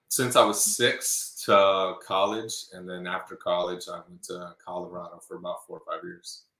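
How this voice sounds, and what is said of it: Slight Texan twang. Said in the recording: “I do detect a little twang. ... Just a little bit.”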